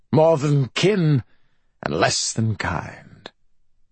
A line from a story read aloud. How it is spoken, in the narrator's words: Burton slurred